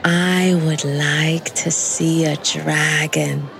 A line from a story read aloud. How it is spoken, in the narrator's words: Mercy said wistfully